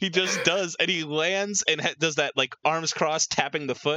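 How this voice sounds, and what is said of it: Usual voice. Nothing is said of it.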